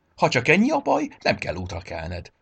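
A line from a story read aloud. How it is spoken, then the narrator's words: Cheerful reply. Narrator (Hungarian): felelte vidáman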